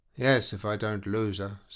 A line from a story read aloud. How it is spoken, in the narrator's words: said the Northman gloomily